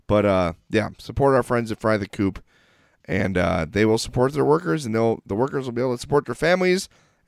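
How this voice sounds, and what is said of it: Congested, hoarse voice. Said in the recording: “congestion out of my head. I'm sorry my voice is so horrible.”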